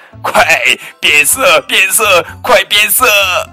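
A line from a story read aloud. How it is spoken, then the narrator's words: Loud laughing shout. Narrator (Chinese): 其他的灰狼也笑着 大声叫道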